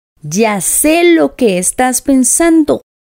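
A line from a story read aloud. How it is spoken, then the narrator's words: Plain. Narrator (Spanish): dijo Tweedledum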